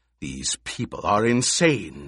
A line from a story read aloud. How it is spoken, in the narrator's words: the Emperor snarled